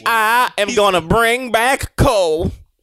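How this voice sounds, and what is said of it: Redneck accent impression. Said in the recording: “A redneck accent? ... He don't sound nothing like that.”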